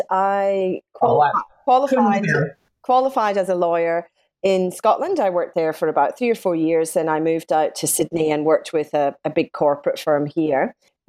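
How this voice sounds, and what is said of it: Scottish accent. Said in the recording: “I'm Scottish, as you might gather from my accent”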